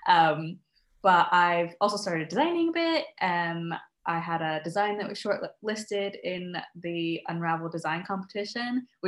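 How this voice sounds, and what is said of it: American accent. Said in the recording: “I'm originally from the States, as you can probably tell from my accent. ... You do not have a Scottish accent?”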